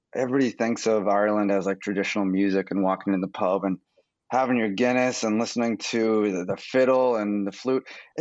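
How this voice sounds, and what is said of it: American accent. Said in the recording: “they hear my voice and it's like an American accent”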